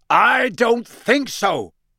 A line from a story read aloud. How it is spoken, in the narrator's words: roared Moody